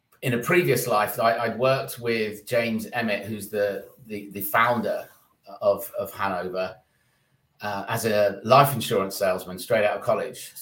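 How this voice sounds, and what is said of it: London English accent. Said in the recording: “you're not an American by obvious nature ... the London accent”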